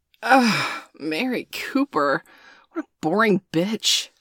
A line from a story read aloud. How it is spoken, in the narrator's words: Danielle scoffed